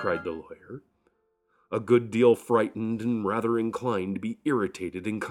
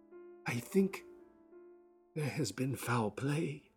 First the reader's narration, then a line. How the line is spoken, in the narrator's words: said Poole hoarsely